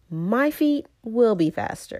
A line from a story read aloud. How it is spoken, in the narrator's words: cried Tiger